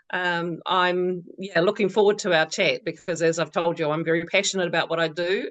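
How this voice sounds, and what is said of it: New Zealand accent. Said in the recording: “has an accent, you might have noticed. She's from New Zealand.”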